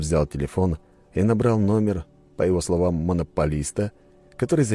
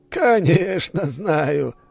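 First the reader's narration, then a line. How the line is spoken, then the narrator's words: Laughing. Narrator (Russian): рассмеялся Старов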